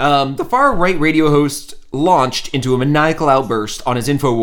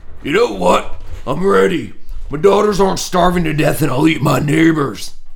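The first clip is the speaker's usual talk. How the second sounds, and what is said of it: Imitates another person's voice. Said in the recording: “my worst impression”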